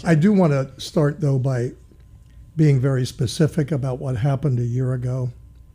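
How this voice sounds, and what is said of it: Raspy, slightly hoarse voice. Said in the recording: “I'm a little raspy today, so if I need to clear my throat”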